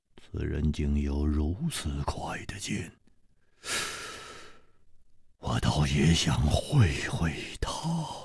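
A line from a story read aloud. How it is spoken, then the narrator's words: Murmured. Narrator (Chinese): 薛衣人的脸上好像泛起了一种兴奋的红光，他喃喃地说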